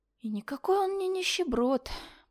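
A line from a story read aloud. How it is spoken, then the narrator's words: Muttered, reminiscing. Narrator (Russian): пробормотала я, вспоминая того мужчину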